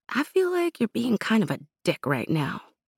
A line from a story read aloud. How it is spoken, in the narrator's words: In a small voice, Amira said